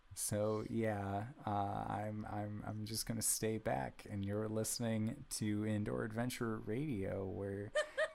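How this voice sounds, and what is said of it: Mopey sad-boy voice. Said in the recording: “doing this sad boy voice”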